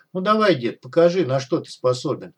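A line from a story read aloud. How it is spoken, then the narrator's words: Gloating inner snicker. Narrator (Russian): злорадно хихикнул про себя Док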